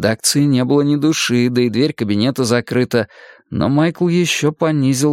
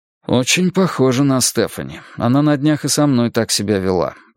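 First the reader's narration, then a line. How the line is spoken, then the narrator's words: Sighing. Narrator (Russian): вздохнул я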